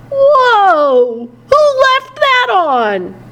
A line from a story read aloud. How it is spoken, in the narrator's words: he exclaimed as he entered